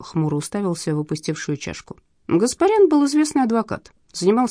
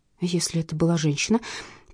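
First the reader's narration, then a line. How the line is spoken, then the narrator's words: Muttered. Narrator (Russian): пробормотала я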